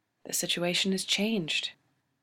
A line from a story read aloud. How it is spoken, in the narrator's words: she says, and her voice is softly diplomatic